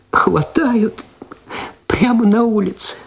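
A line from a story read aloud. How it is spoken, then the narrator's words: Tearful. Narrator (Russian): сквозь слезы сказала она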